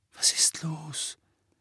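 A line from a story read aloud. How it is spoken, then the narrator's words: Weak voice. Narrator (German): sagte er schwach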